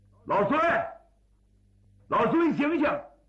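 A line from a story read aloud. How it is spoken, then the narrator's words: Calling out. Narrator (Chinese): 海国臣喊了一声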